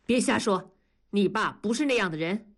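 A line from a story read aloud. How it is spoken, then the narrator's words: Stern rebuke. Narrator (Chinese): 文丽厉声地制止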